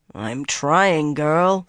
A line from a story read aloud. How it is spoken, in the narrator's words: Swan growled